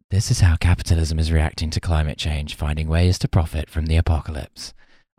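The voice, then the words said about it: Soft whispery ASMR voice. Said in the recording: “I'm just going to say this in a kind of Billie Eilish-style ASMR voice.”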